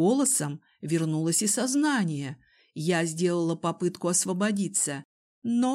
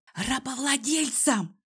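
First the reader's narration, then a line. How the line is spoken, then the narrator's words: Whispered growl. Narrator (Russian): Шепотом рыкнула я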